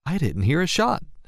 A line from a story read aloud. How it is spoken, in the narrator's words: said Lisa, nervously